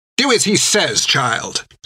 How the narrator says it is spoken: snapped Hilda

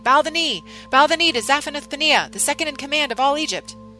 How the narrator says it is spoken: shouting before me

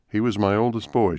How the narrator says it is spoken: said

